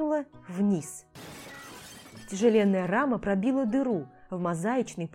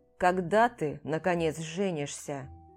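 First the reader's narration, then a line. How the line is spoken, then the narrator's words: Displeased grumbling. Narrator (Russian): пробурчал тот недовольно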